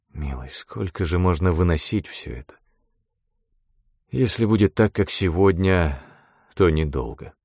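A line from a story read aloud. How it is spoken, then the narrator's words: Sigh. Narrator (Russian): вздохнул Эйнсли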